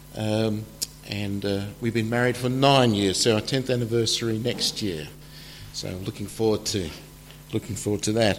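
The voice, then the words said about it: Slight Australian accent. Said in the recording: “You can probably detect a slight accent. I am from Australia originally”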